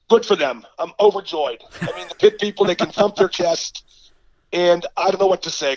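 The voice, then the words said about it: Hoarse, congested sick voice. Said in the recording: “You sound a little hoarse. ... I'm just sick. ... I have a congested chest.”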